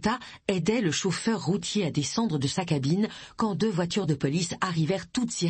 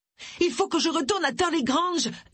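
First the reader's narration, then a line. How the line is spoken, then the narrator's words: Screaming. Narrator (French): hurla Agatha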